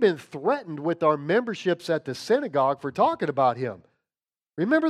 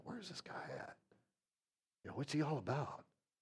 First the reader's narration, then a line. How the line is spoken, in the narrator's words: mutter to one another